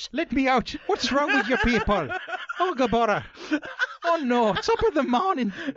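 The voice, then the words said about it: Put-on Irish accent. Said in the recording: “You should be able to do that in an Irish accent. ... It's almost bordering on racism, isn't it?”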